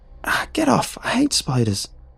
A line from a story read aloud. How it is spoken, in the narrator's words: squealed